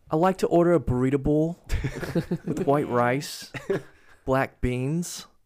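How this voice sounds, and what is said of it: Attempted North Jersey accent, sounding Australian. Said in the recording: “in a North Jersey accent... Is this Australian?”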